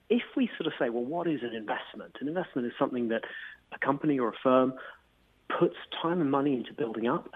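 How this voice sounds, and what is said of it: British English accent. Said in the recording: “as you can tell from my accent, I'm British”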